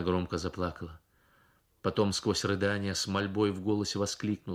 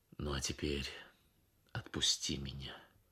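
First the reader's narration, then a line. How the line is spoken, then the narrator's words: Gentle, hiding heartache. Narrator (Russian): Ахмад почувствовал, как сердце его обливается кровью, но сказал только, ласково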